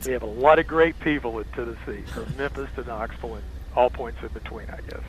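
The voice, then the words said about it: Tennessee Southern accent. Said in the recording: “it's given away by your accent”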